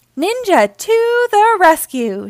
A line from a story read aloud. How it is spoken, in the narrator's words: shouted Naughty Ninja